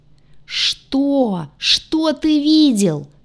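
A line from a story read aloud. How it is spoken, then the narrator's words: Howling young man. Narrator (Russian): взвыл парень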